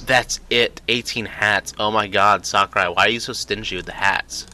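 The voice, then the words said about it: Weak sarcastic delivery. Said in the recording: “That was sarcasm. It wasn't very good sarcasm”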